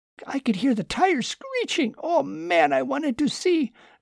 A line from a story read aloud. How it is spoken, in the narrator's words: Lucas whined some more